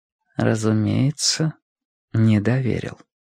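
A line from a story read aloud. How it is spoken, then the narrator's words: Quiet speech. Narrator (Russian): тихо сказала она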